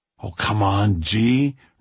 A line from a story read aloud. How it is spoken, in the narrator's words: Richie says with a sigh